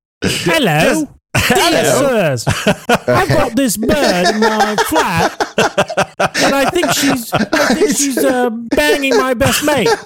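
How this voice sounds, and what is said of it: Put-on Hackney London accent. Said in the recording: “I wish I could do like a Hackney accent”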